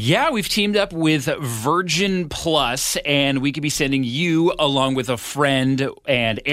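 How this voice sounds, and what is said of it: Usual voice. Nothing is said of it.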